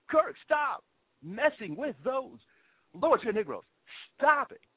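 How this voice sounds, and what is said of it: William Shatner impression. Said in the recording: “that's my best William Shatner impersonation.”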